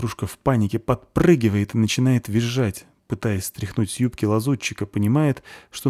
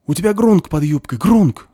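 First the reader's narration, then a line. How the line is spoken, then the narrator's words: Panicked whisper-shout, female gnome. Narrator (Russian): паническим шепотом кричит ей в ухо гномиха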